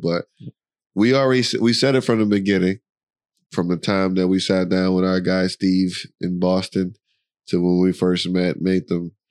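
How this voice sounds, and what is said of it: Nasal, congested voice. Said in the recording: “he really is sick ... your voice is real like nasal ... Nasally”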